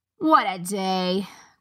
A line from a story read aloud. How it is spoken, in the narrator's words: groaned the guard